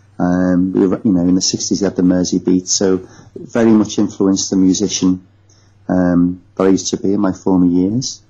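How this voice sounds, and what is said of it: Northwest English accent, near Liverpool. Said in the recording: “I was born in the Northwest. My accent is not far from Liverpool.”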